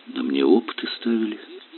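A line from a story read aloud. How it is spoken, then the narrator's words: Quiet. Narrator (Russian): тихо ответил великоречанин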